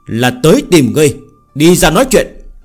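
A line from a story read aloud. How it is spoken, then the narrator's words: Shouting. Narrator (Vietnamese): Hắn quát đại nói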